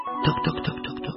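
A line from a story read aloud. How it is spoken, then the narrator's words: Muttering hedgehog. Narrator (Russian): забормотал ежик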